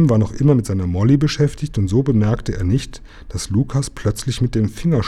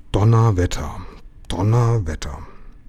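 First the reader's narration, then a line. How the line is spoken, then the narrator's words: Repeated muttering to oneself. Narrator (German): murmelte noch ein paar Mal vor sich hin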